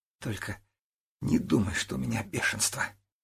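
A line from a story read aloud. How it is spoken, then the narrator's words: Muttered. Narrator (Russian): пробормотала она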